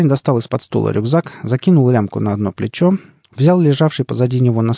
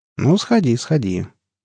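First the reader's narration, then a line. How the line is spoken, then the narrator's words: Thoughtful. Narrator (Russian): кивнул задумчиво борода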